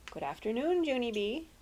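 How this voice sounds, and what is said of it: Nice, gentle character voice. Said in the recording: “she said in a nice voice.”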